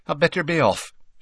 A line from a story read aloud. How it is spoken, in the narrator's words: she said quickly